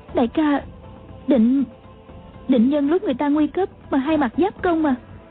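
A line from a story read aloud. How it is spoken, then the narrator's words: Trembling question. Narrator (Vietnamese): A Châu run run hỏi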